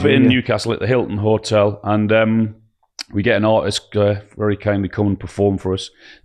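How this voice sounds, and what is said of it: Croaky voice. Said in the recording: “my voice is a bit croaky”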